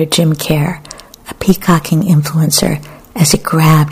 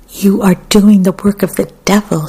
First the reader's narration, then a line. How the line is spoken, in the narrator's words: screamed Gowdry, soldier in the movement of love